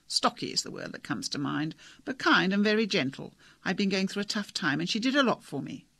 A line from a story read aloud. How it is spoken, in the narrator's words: laughed